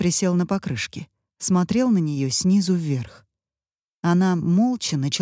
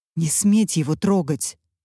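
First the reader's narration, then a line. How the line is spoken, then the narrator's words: Angry hiss. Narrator (Russian): зло прошипела Катя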